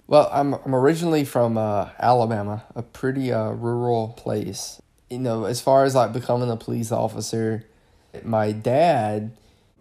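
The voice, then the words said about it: Comforting regional accent. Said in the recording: “I comforted him with my accent ... that nice, comforting accent”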